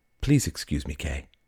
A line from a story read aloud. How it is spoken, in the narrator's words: she said evenly